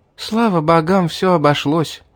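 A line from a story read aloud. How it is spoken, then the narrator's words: Sighing. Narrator (Russian): вздохнула она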